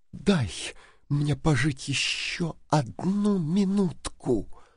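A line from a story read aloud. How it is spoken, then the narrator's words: Whisper. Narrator (Russian): прошептала она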